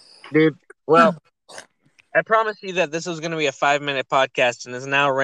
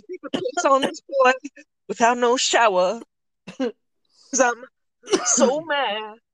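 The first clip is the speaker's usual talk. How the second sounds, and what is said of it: Imitates another person's voice. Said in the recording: “a pretty good R. Kelly impression ... the most fucking best impression I've heard”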